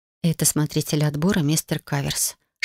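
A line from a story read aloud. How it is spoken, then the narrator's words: Whisper. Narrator (Russian): шепнул мне Зикра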